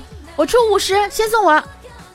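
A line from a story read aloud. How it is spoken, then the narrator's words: Shouting. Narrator (Chinese): 就对这个司机喊说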